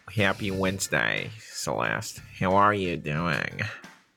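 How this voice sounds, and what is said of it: Put-on Boston accent. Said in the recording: “I was supposed to be the Boston person ... I'm doing accents.”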